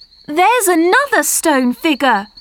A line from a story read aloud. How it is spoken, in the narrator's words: cried Marcia